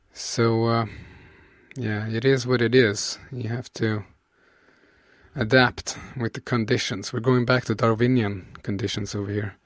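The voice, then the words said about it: Crackly, sick-sounding voice. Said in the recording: “my voice is a bit crackly. I think Johan gave me that autumn bug that he had ... It might sound extra crispy, extra nice and crispy tonight.”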